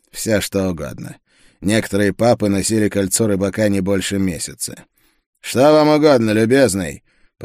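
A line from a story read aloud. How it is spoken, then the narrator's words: Rather rude tone. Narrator (Russian): Последние слова он сказал довольно грубым тоном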